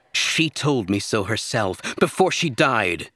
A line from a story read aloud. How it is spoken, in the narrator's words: she snapped